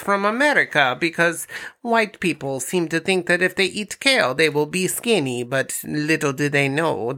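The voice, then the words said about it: Eastern European mad scientist accent. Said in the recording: “I like these accents you're doing tonight... Sound like a mad scientist, but, kinda. The guy from Despicable Me, sorta... he's definitely Eastern European... I'm Borat”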